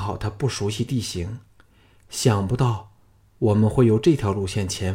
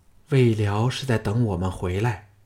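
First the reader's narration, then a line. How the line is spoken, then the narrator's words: Grim, low. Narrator (Chinese): 季嫣然 咬得下唇都渗出血来，沉声说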